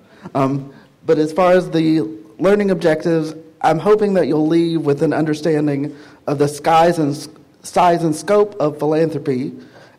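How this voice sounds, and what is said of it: Southern American accent. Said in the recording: “hopefully you can understand with the accent. I am Southern, so it'll come out probably the longer this goes on, the more it'll be apparent.”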